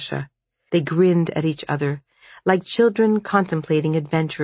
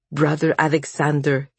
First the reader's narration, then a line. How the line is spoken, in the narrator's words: he broke in stiffly